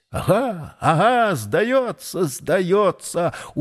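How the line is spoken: Hoarse wheeze. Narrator (Russian): хрипит Числов

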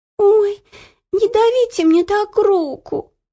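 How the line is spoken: Whimpering. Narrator (Russian): Захныкала Ело

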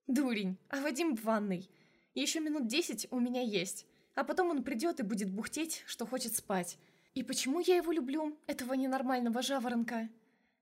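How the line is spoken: Snort. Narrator (Russian): Мишин фыркнул

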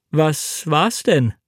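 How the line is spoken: Plain. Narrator (German): fragte ich

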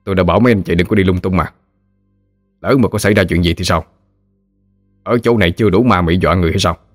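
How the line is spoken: Stern. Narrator (Vietnamese): nghiêm nghị nói

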